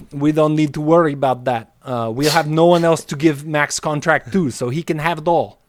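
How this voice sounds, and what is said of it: Imitates another person's accented voice. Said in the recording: “Why is he so good at that accent? ... killed the Vlade accent.”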